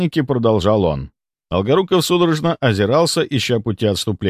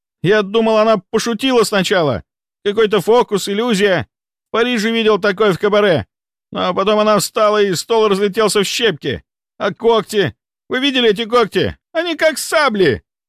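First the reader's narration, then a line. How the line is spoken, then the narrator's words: Rising to a shriek. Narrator (Russian): Он повысил голос до визга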